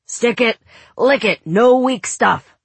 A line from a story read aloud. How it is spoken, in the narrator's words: But whenever he yelled at the girls